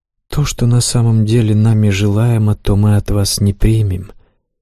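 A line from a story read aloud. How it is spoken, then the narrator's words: Soft young woman. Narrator (Russian): мягко сказала девушка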